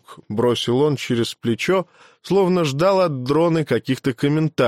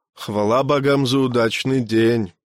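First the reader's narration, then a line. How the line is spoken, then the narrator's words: Calm. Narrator (Russian): спокойно ответил сын жаворонка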